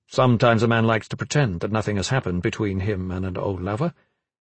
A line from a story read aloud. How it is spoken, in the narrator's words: Gavin said quickly